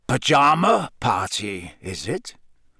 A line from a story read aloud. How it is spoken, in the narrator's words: growled up the stairs